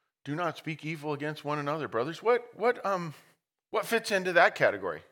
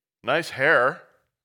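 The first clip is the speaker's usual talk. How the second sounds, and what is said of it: Sarcastic tone. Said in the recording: “That was sarcastic”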